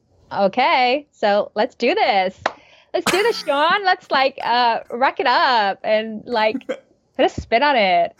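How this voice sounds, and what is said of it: Valley Girl Californian accent. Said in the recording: “I think you had to do like the whole like Valley Girl thing ... That's pretty good ... Like you transform to like a Valley Girl, Californian high school student”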